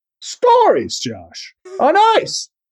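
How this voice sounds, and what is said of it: Jimmy Stewart impression. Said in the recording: “that Jimmy Stewart impression”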